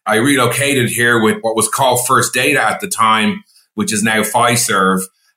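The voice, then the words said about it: Irish accent. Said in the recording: “as you can hear from my accent, I'm a very proud Irishman”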